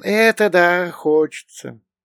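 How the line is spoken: Smiling drawl. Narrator (Russian): расплылся в улыбке и протянул

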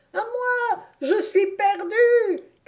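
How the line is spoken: Breathless cry. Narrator (French): criait Reb d'une voix haletante

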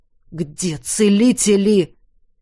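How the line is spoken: Through gritted teeth. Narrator (Russian): процедил Кариан

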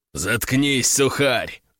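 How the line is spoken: Growl. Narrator (Russian): рыкнул сикач

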